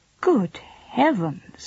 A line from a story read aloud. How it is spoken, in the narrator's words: exclaimed his wife